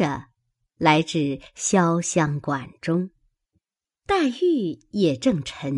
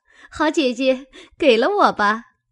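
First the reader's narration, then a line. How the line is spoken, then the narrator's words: Delighted, laughing. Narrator (Chinese): 喜得蕊官笑说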